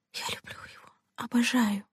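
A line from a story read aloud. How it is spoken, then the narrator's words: Whisper. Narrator (Russian): прошептала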